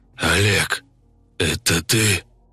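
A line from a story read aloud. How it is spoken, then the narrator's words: Hoarse wheeze. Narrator (Russian): просипел связками санитар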